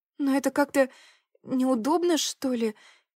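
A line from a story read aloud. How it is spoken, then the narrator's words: Hesitant. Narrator (Russian): неуверенно промолвила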